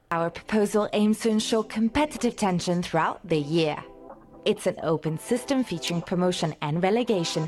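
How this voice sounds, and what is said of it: German accent, formal presentation. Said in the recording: “the people have a German accent? It sounds like the World Economic Forum.”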